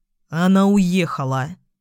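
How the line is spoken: Through clenched teeth. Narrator (Russian): сквозь зубы произнес Кралер

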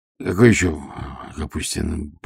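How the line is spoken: Mutter. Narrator (Russian): пробормотал

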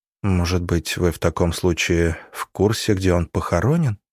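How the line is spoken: Quiet question. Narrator (Russian): тихо спросила Голицына

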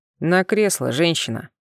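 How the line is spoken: Calmer grumble. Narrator (Russian): Уже более спокойно пробурчал

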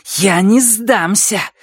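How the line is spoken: Hiss. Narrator (Russian): зашипела она

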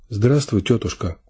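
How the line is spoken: Quiet, sick woman. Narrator (Russian): сказала тихо больная

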